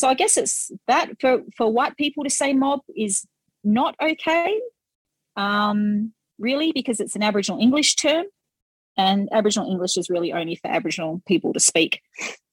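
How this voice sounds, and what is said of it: Thick Aboriginal English accent. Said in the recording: “I hope my accent isn't too thick.”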